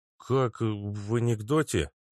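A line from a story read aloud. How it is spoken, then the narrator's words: Strained, barely audible. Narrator (Russian): еле выдавил из себя Вася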